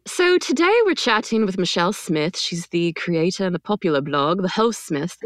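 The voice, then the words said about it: Put-on accent, poorly done. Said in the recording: “My accent's not good? ... It actually is not good.”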